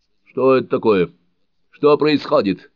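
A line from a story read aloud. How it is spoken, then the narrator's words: Frightened shout. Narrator (Russian): испуганно крикнул Мартин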